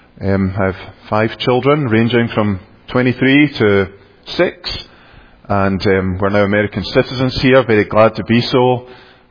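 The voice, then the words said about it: Scottish accent. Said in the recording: “this strange man is with a very strange accent. ... I come from Scotland, as you might have guessed.”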